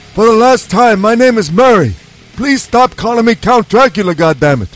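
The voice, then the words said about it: Dracula voice like old New Yorker. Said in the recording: “my Dracula impersonation always ends up sounding like an old Jewish man from New York”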